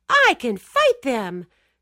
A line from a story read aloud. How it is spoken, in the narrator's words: Joe-Jack screeched